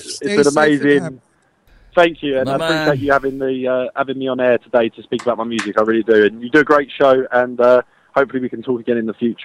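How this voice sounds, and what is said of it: Heavy Cockney accent. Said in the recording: “He has a Cockney accent that's really heavy duty ... I didn't understand a word he was saying”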